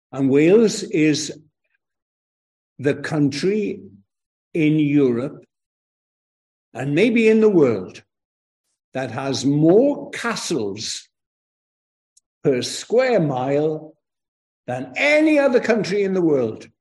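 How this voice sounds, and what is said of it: Welsh accent. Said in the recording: “from my accent where I come from, of course, I come from Wales.”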